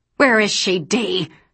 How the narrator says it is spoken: Sophia spat

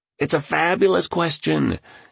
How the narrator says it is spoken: exclaimed the tycoon

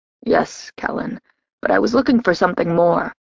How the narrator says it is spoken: rasped out

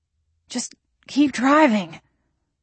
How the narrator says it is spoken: I panted

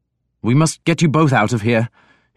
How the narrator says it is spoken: he said urgently

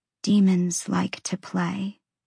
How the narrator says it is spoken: she whispered

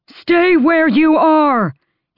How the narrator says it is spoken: he bellowed

